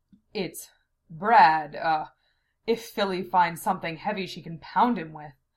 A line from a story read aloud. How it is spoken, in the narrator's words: Zelos explained in gasps